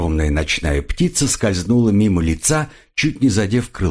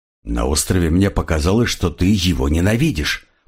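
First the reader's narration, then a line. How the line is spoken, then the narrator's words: Muttering crocodile. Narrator (Russian): пробормотал крокодил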